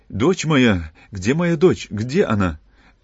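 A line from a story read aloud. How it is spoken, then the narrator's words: Exclaimed. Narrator (Russian): воскликнул он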